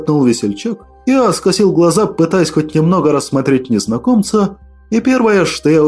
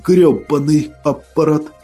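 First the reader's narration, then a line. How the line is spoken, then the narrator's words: Hoarse wheeze. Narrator (Russian): просипел я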